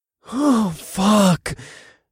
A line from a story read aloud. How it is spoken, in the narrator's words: I groaned